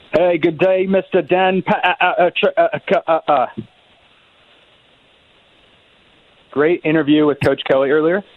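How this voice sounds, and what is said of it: Good put-on accent. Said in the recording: “It's a good accent”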